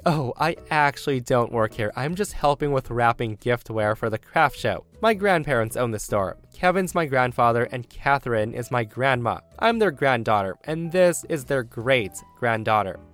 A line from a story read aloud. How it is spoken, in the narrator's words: I laugh and say